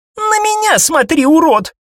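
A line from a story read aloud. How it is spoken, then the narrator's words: Shrieking woman. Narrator (Russian): Взвизгнула недавняя пленница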